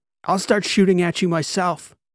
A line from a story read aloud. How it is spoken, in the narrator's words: Transom shouted